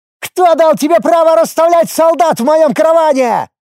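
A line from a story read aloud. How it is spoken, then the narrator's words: Young goblin shouting. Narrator (Russian): выкрикнул молодой гоблин 16 уровня по имени Лиет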